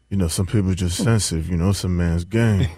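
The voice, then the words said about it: Klay Thompson impression. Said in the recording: “your Klay Thompson impersonation”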